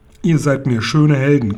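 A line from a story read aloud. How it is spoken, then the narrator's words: Uncle growling. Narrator (German): knurrte der Onkel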